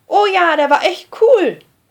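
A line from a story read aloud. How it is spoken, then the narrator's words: Called out. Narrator (German): ruft die rote Emmerli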